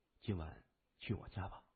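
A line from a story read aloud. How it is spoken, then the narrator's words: Quiet whisper. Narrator (Chinese): 他小声说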